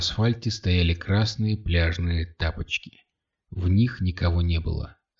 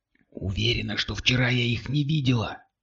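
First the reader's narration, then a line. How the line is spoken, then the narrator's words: Whisper. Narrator (Russian): прошептала Кристина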